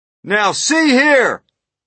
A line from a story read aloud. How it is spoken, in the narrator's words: shouted the chief of police